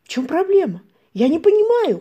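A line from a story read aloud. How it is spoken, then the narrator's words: Mother shouting. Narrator (Russian): кричала мама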